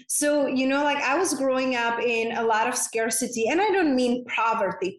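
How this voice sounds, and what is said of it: Czech accent. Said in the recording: “I grew up in a very small town in Czech Republic, hence that's my unpronounceable name and my accent is from.”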